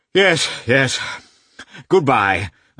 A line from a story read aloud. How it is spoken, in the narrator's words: uttered Lievin, gasping with excitement